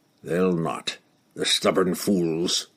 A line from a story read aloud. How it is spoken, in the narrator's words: he muttered